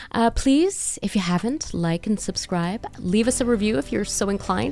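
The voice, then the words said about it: Polished podcast host voice. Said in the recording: “podcast voice”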